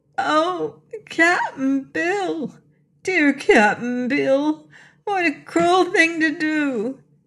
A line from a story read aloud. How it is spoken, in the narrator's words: she sobbed